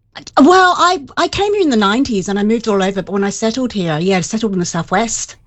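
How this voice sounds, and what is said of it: Australian accent. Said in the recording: “Is there an accent there I can hear ... I grew up in Australia.”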